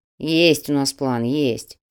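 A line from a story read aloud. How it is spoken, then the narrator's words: Grumbled. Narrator (Russian): проворчал Тимоха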